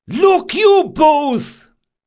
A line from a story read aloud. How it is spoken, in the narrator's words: Caldris yelled